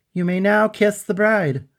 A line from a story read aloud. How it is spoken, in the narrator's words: I shouted to Bernadette